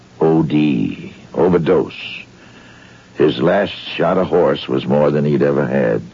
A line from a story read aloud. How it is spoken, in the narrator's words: his voice intoned